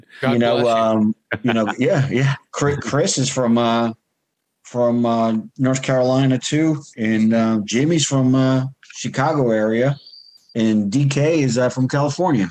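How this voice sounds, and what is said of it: New York / New Jersey accent. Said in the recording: “Hell, I'm from New York and New Jersey. ... I could tell. ... I can hear it in the accent.”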